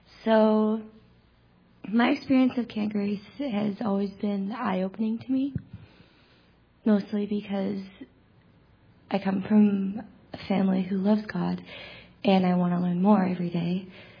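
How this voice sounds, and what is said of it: Very quiet, worn-out voice. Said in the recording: “I'm talking very low, it's because my voice is gone”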